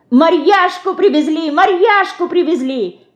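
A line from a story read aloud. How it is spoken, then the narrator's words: Shouting. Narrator (Russian): кричала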